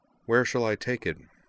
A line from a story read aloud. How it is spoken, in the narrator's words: she asked Corwin flatly